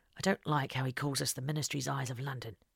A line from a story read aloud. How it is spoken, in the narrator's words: Henry muttered under his breath